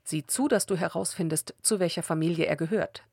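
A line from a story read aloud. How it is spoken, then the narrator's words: Plain. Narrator (German): sagte Saul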